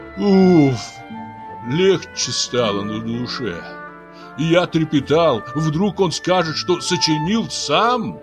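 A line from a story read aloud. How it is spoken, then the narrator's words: Relieved sigh. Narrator (Russian): Облегченно вздохнул и Кокпай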